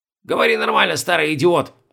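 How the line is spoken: Sharp scolding shout. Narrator (Russian): прикрикнул на него Бальтазар

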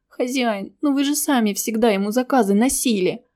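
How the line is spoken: Young boy's plaintive whine. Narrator (Russian): жалобно проныл паренек помладше

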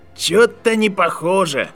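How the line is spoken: Skeptical snort. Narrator (Russian): хмыкнул Дерек

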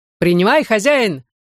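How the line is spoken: Dashing shout. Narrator (Russian): залихватски крикнул кучер

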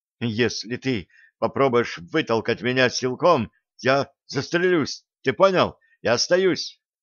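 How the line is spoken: Tearful shout. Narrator (Russian): Ленка со слезами в голосе крикнула

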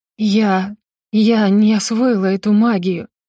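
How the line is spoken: Trembling voice. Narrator (Russian): дрожащим голосом ответила ему

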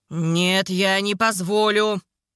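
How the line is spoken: Growl. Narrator (Russian): прорычал он

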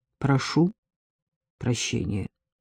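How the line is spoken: Polite, lifeless tone. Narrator (Russian): произнес Максим учтивым, безжизненным тоном

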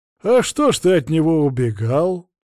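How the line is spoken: Chuckling priest. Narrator (Russian): хохотнул поп

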